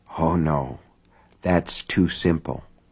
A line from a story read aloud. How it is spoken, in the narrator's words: she whispered